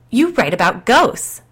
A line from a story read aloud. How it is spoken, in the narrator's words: insisted loudly